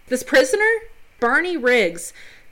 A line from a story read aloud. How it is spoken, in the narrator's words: Thomas Gates yells at Riggs